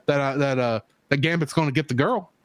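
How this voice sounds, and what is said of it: Weak put-on Cajun accent. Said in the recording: “This is not even good Cajun accent”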